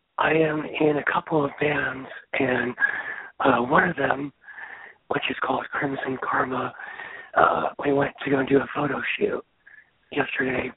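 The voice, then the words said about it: Soft whispery voice. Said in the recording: “why are you whispering? ... Still sounds like a whisper.”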